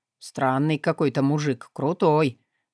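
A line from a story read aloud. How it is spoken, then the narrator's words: Mutter. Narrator (Russian): пробормотал таксист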